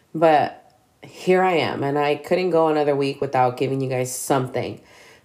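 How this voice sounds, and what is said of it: Congested, sick-sounding voice. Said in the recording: “my voice is going to sound a little different ... I'm still fighting the cough ... I still have a gang of congestion”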